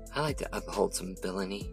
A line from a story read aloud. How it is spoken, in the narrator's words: Erica said under her breath